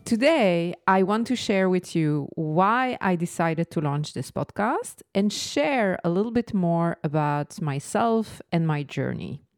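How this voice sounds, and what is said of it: Slight French accent. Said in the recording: “the voice with the slightly French accent”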